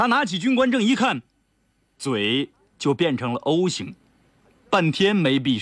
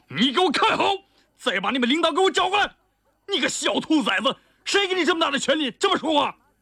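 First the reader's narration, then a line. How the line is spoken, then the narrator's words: Angry roar. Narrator (Chinese): 李云龙火了，吼道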